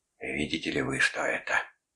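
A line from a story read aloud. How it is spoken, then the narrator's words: Whisper. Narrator (Russian): шептал Карпински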